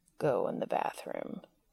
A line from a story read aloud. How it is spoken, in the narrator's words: he said finally, lowering his voice further so it rumbled like faraway thunder